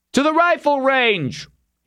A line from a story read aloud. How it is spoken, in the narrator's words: he called out